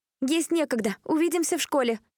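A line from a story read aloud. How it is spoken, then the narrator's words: Shout. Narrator (Russian): крикнула она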